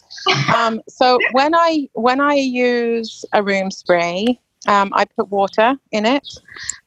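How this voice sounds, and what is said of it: English East Anglian accent. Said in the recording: “I'm in Surrey in England ... born in Ipswich ... So that's East Anglia ... This is my real accent”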